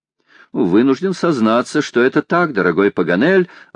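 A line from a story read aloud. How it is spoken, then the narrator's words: Answered amid laughter. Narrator (Russian): ответил среди общего хохота Гленарван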